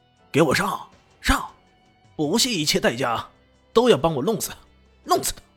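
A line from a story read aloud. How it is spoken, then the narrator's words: Roaring. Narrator (Chinese): 豹哥的咆哮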